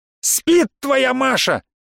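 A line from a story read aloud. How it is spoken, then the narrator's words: Shouted in reply. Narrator (Russian): крикнул я в ответ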